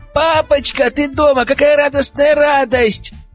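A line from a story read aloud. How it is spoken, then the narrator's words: Joyful yelling child. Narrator (Russian): вопила Леночка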